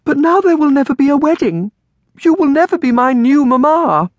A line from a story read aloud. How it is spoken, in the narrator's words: Amelia cried